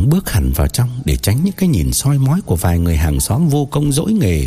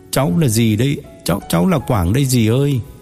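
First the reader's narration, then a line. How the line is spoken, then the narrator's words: Tearful, embarrassed, sad reply. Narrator (Vietnamese): Quảng mếu máo, vừa ngượng vừa buồn đáp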